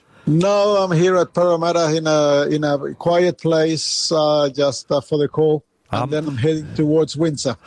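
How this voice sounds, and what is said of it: Slight Chilean Spanish accent. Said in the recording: “you have a little accent there ... I was born in Chile, South America ... So I'm an Aussie with accent.”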